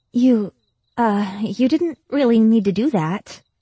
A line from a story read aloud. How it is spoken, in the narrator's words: the girl said nervously